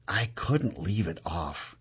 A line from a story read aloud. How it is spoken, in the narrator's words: I whisper